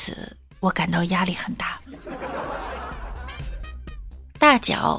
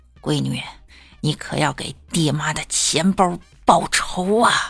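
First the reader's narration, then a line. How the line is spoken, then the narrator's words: Through gritted teeth. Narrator (Chinese): 我爹妈咬牙切齿地跟我说一句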